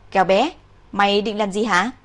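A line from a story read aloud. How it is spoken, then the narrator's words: Loud. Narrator (Vietnamese): Cao Phi lập tức lớn tiếng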